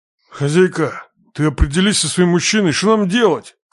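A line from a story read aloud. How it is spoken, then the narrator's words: Grumbling. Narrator (Russian): Сходу проворчал он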